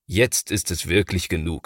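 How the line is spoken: Plain. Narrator (German): sagt Papa

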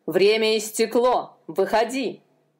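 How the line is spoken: Jailer's growl. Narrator (Russian): прорычал тюремщик

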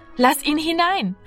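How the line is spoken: Calling out. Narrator (German): rief Martina

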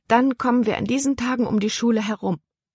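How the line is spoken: Delighted call. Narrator (German): rief Libby erfreut

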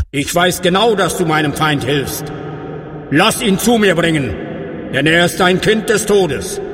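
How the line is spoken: Calling out. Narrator (German): rief er

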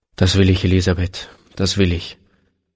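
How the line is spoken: Plain. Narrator (German): antwortete er

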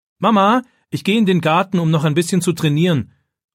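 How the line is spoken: Calling out to another room. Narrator (German): ruft David in Richtung Küche

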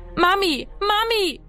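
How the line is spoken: Echoing scream. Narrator (German): schrie er, dass seine Stimme im Haus widerhallte

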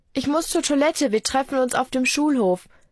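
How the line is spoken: Called out. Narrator (German): ruft sie

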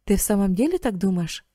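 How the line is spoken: Plain. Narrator (Russian): спросил Карл

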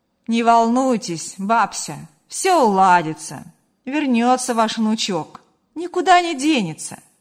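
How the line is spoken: Reassuring, slightly joking. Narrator (Russian): Гриша попытался поддержать старушку и немного шутливым тоном добавил

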